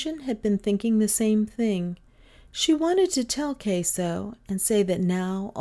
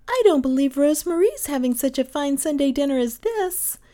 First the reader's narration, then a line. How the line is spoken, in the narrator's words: Gentian exclaimed